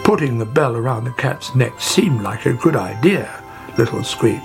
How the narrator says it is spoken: said Father Longtail

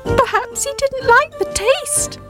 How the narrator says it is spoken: shouted cheekily

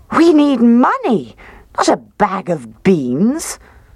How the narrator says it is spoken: she cried

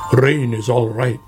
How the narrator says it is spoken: grumbled Badger

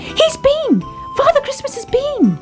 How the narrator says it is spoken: cried Baby Ted

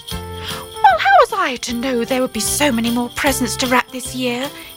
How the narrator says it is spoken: he replied

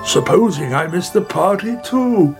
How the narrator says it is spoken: he cried

